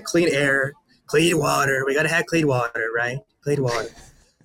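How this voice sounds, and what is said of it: Donald Trump impression. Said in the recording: “my Trump impression.”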